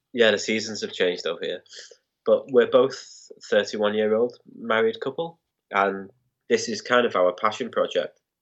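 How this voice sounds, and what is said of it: Nasal, congested flu voice. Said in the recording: “my nasal, fluey voice ... today it's a little different ... It's just this flu”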